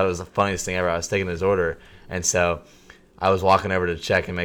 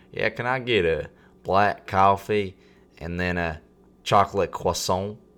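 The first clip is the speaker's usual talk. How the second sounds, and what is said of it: Put-on thick Southern accent. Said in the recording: “he had a thick southern accent ... From a thick southern accent.”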